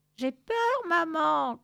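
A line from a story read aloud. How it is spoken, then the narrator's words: Shouted. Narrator (French): cria Fortunada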